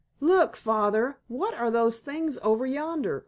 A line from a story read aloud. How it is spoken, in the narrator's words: cried Lige